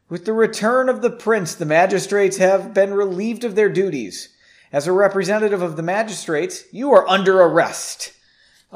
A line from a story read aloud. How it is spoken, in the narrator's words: An officer shouted